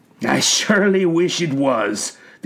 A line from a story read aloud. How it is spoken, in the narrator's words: the older elf said with a weary sigh